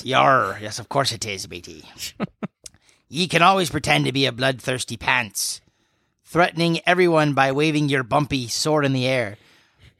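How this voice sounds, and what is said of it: Pirate character voice. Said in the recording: “I'm gonna try to do my best piratey voice”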